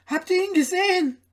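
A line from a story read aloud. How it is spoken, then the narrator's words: Several voices shouting. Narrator (German): schrien sie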